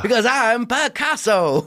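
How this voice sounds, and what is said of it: Jon Lovitz impression. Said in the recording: “good Lovitz impression”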